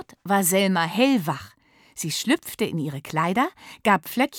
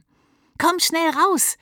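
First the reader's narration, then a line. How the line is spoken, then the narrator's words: Excited call. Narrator (German): rief Lilly mit leuchtenden Augen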